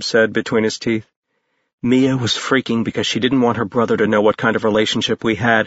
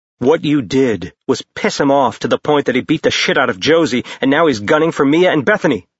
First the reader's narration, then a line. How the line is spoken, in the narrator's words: Jace said in a furious tone